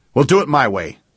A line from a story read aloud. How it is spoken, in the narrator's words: snapped Jake